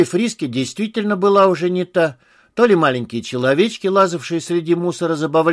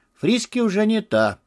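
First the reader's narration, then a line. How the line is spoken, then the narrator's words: Muttered. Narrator (Russian): пробормотал Артур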